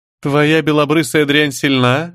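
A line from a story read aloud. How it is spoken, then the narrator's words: Laughing. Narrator (Russian): рассмеялась Дагни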